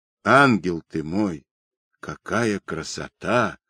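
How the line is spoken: Hoarse. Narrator (Russian): сипло проговорил

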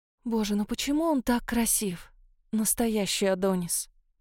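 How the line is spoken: Self-reproachful sigh. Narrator (Russian): вздохнула я, коря себя за неверные выводы

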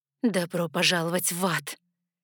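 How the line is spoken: Hoarse, spat out. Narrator (Russian): хрипло выплюнула я ответное приветствие

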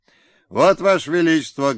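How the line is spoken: Dashing bark. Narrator (Russian): гаркнул он молодцевато

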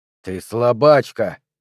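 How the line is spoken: Hissing. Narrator (Russian): прошипел Перри

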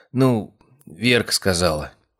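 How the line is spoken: Said uncertainly. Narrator (Russian): Синицын неуверенно произнес

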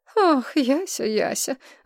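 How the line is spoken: Heavy sigh. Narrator (Russian): вздохнула Улада всем своим пятым размером

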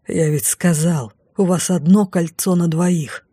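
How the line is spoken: Through gritted teeth. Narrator (Russian): процедил маг

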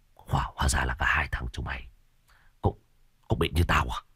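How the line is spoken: Bewildered stammer. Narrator (Vietnamese): Lão Thiết ngơ ngác, lão á khẩu, lắp bắp

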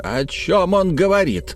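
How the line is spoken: Raised-voice exclamation. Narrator (Russian): воскликнул, повысив голос, Хэммонд

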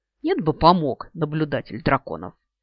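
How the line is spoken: Offended snort. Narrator (Russian): Обиженно фыркнув

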